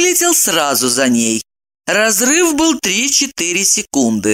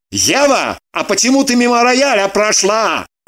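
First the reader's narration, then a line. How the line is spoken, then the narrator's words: Shouting over squealing. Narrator (Russian): Заглушая ее визг, прокричал он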